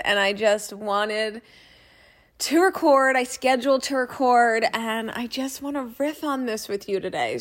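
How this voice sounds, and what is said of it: Slightly rough, husky voice. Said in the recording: “if I sound like I have a little cold, I have a little cold ... I have a little bit of like a ruffly, sexy voice”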